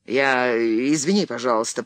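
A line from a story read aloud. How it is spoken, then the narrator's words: Mumbling. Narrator (Russian): пробормотал Генри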